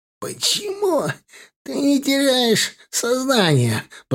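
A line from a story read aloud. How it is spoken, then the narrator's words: Hoarse, out of breath. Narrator (Russian): прохрипел он, когда отдышался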